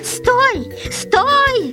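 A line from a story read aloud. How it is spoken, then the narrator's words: Screamed. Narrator (Russian): закричала Дарья Семеновна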